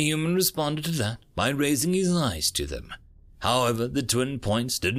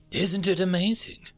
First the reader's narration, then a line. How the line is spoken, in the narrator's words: he asked in a hushed tone